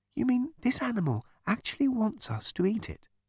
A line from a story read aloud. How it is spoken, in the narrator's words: whispered Trillian to Ford